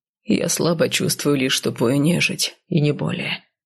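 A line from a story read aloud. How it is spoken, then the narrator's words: Calm. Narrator (Russian): спокойно произнес целитель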